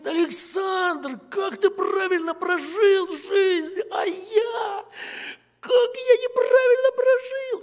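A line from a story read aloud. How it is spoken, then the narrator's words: Sobbing. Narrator (Russian): И плачет, рыдает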